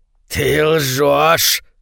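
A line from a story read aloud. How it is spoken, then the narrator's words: Angry growl. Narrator (Russian): зарычал он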